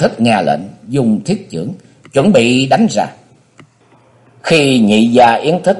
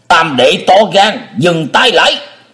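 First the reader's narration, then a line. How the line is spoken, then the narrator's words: Shout. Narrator (Vietnamese): Dứt tiếng quát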